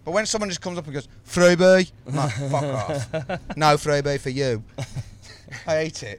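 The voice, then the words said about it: Birmingham accent. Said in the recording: “You've nailed your Birmingham accent ... Perfect.”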